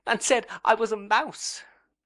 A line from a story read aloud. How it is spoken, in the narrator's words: sobbed Dora